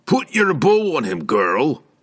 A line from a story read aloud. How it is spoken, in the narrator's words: he said loudly enough for Pinochet to hear